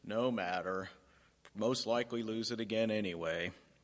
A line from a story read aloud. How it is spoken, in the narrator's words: Eeyore grumbles